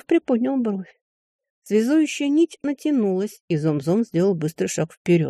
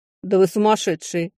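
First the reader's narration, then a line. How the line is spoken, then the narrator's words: Scoffing snort. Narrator (Russian): хмыкнул Глейн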